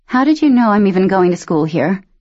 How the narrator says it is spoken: Cam sighed

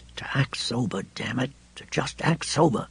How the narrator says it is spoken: they began to admonish each other in aromatic whispers

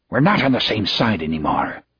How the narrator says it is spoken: Blake said harshly

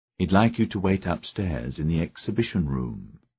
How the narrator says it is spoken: the girl purred

